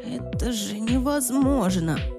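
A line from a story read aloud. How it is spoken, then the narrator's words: Astonished breathless exhale. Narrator (Russian): пораженно выдохнул Джимми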